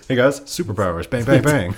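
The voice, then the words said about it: Imitates another person's voice. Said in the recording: “that your Rock impression? ... Yeah, it was pretty good, wasn't it?”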